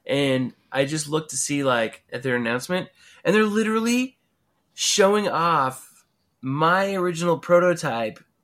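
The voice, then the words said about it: Congested voice from a head cold. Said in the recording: “I've had a head cold this week... that's why my voice sounds a little whatever”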